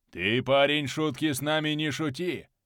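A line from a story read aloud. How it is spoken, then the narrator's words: Older man's gruff growl. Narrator (Russian): рыкнул другой постарше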